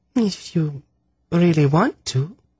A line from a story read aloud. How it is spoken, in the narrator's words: she said in a girlish voice